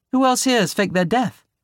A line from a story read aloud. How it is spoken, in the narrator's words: Anthony chuckled